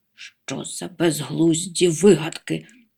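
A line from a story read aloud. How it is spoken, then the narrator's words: Strained grumble. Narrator (Ukrainian): буркнув з натугою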